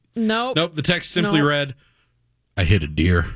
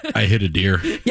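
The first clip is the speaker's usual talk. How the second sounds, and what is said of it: Deadpan, matter-of-fact delivery. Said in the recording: “it was very deadpan. ... matter of fact.”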